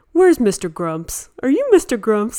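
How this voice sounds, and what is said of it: Silly playful voice. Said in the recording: “in this really silly voice”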